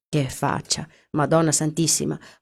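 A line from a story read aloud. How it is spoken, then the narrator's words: Exclamation. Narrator (Italian): ho esclamato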